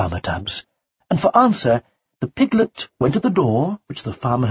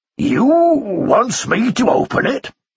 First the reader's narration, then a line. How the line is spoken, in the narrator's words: Two grunts